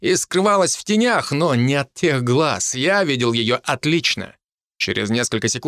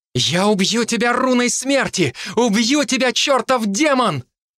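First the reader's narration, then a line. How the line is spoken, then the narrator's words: Frustrated woman crying out. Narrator (Russian): Она застонала, запрокинула голову и дернулась, чтобы вырваться, но так ничего не добившись, выкрикнула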